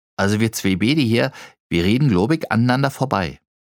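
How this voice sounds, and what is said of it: Berlin dialect. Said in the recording (German): “so wie Sie Berlinern sind Sie aber wohl auch nicht aus Berlin”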